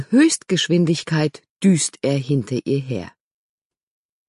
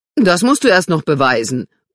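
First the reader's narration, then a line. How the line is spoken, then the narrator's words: Called after. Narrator (German): ruft Robert Sissy nach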